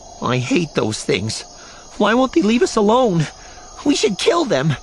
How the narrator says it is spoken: His voice trembling and his breath weak as they hurry on, Adar says

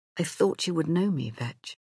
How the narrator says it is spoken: His voice shook a little as he said

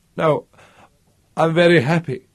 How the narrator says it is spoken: Pierre sobbed, weeping

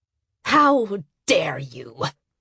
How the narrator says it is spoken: Yunli Hado spat at Abumwe

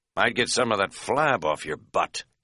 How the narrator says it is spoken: Katz muttered privately

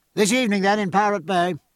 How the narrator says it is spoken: called out

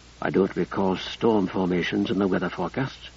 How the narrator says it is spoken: she whispered to it

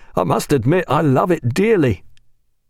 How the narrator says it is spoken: said Pullings with a happy laugh

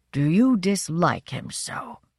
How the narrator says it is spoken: His voice was weak

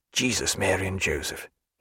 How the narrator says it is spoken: he said in a low inward tone

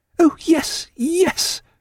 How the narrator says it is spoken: cried Diana

